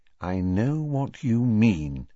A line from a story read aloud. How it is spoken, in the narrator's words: said Mrs